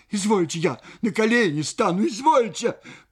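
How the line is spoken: Frightened cry. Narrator (Russian): Паша вскрикнула от испуга

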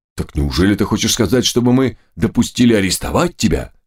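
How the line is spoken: Frightened question. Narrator (Russian): спросил испуганно Трихтер

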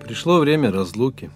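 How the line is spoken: Calm reply. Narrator (Russian): спокойно ответил праведник Хадир

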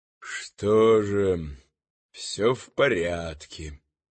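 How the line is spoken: Quiet, through clenched teeth. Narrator (Russian): тихо сквозь зубы проговорил замаскированный

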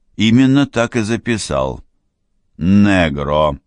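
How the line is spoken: Calm reply. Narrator (Russian): спокойно откликнулся

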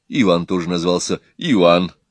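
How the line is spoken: Laughing. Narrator (Russian): Профессор засмеялся

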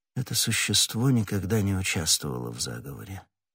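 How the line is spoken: Whisper. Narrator (Russian): прошептал он

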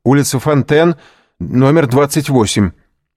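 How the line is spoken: Shouting. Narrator (Russian): крикнул кучеру

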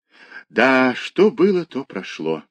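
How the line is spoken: Sighing. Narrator (Russian): вздохнула Кисочка

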